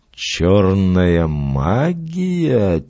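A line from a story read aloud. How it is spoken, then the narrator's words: Quiet. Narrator (Russian): тихо повторил Фламбо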